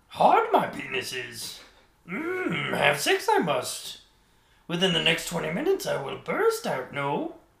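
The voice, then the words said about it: Yoda-style character voice. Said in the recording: “my Yoda impression”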